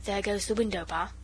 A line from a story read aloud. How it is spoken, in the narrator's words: said the robber, softly